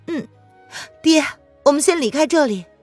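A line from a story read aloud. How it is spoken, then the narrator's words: Tearful, hurried reminder. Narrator (Chinese): 瑶儿含着泪，连忙的提醒道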